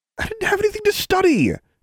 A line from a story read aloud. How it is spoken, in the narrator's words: Alexandra said hotly